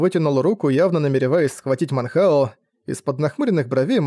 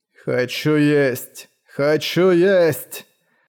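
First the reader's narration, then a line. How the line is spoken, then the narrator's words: Shouting. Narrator (Russian): кричал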